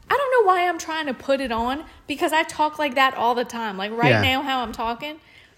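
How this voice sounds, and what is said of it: Mild New Orleans accent. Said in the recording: “It's more like this down here in New Orleans ... It's not as strong, but it's noticeably this accent”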